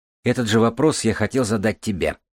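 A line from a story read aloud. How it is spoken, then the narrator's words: Smirking grunt. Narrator (Russian): хмыкнул Курчавый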